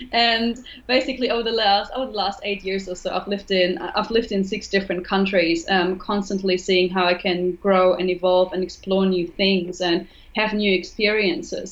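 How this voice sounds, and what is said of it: German accent. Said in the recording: “I'm originally from Germany. You may have noticed it on the accent.”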